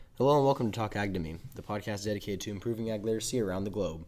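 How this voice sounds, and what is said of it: Hoarse, congested voice. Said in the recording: “I apologize for my voice. I have a bit of a cold”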